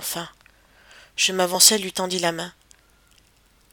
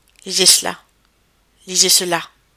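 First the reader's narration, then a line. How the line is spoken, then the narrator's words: Icy tone. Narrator (French): répéta-t-elle d'un ton glacé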